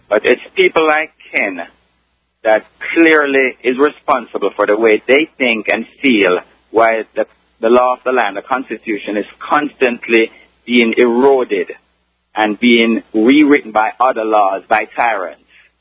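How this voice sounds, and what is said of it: Strong Caribbean accent. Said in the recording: “my very strong Caribbean accent”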